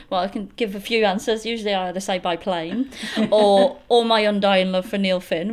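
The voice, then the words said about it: Slight Leeds English accent. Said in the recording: “I'm from Leeds originally. ... Moved around England a little bit before I came over here, so the accent's still there a little bit.”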